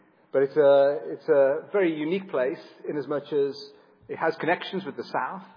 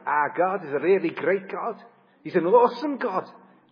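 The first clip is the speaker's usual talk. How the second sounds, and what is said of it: Put-on Liverpool Scouse accent. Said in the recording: “Liverpool has a very distinctive accent ... if I spoke like that, you'd never really understand me”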